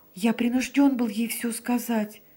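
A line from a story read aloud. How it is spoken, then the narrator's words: Babbling. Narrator (Russian): пролепетал он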